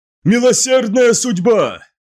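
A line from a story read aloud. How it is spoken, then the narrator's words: Shout. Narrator (Russian): закричал Утизар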